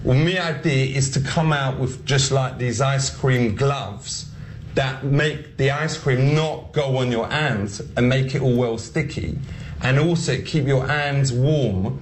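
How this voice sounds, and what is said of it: Exaggerated put-on comedic accent. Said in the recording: “here's Sacha Baron Cohen trying to just do this accent.”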